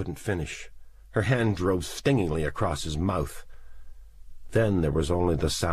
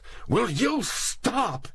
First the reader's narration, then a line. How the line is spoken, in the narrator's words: he cried